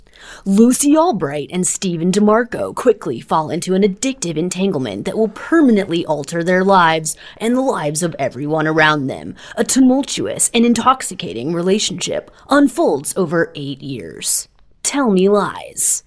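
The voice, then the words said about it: Formal imitation of another person's voice. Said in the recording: “I'm gonna do the Wells voice ... That was a great Wells impression ... That was so formal.”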